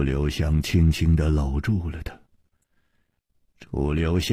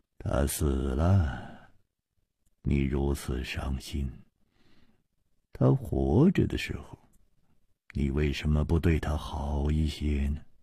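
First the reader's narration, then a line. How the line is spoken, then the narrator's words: Sighing. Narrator (Chinese): 楚留香叹道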